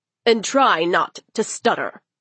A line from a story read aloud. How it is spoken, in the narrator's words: he added harshly